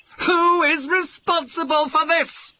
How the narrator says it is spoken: He yelled

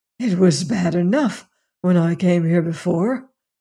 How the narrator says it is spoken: he said hoarsely

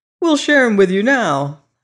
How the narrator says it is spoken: I exclaimed

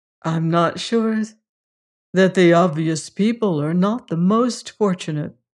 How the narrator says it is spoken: he said with a little laugh

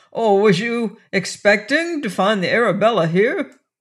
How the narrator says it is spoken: Wolverstone looked him over in contempt, then laughed and spoke loud enough to be heard by all round him

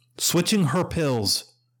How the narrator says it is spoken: Harold cried

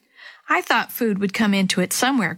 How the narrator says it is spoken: Grandpa said with a chuckle

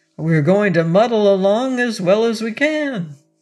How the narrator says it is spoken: answered Arthur cheerfully

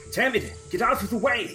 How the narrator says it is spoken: he is going to yell

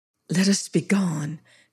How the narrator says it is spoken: she whispered

